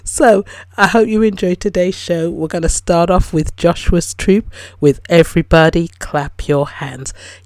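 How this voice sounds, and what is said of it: Rough, slightly hoarse voice. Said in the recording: “my voice is sounding a little bit rough”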